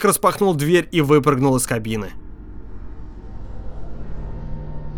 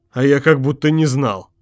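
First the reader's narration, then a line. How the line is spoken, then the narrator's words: Muttering under breath. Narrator (Russian): пробурчал Моррис себе под нос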